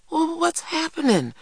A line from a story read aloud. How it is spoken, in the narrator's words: cried Christopher John